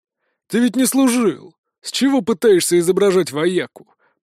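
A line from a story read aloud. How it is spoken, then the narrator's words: Grumbling. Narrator (Russian): проворчал препод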